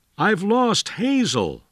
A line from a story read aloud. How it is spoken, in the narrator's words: William Wallace cried to his friend